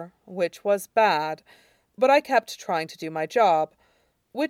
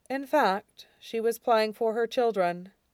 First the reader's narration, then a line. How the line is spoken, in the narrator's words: Shurong said dryly